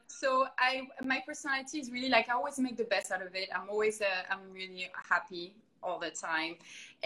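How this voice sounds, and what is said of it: French accent in English. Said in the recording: “I really don't have an accent. It's really hard to tell. But yeah, I'm from France originally ... which it's a beautiful accent”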